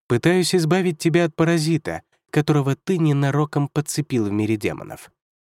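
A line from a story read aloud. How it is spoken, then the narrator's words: Plain. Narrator (Russian): сказал Юнгуань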